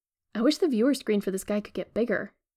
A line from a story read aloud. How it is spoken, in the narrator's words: says